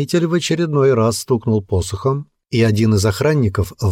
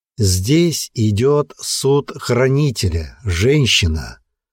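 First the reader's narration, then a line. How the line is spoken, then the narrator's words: Weary. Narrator (Russian): Устало обратился Хродвиг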